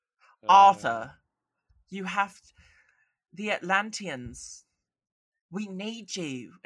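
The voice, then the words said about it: Imitating Amber Heard's British accent. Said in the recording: “Amber Heard in there doing that freaking British accent that I could do a better job with”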